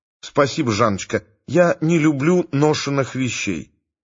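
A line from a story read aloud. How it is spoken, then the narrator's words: Soft refusal. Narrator (Russian): мягко отказалась Света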